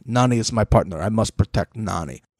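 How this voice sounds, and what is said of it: Imitated Turkish accent. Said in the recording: “he's got an accent ... He's Turkish.”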